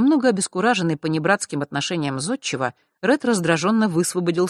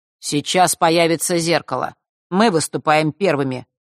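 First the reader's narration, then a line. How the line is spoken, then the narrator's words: Cold declaration. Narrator (Russian): холодно заявил он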